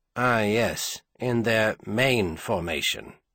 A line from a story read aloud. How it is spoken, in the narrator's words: Clareik said dryly